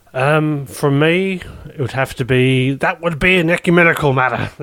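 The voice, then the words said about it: Bad impression of a TV character. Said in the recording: “my Father Jack impression. ... Very, very terrible”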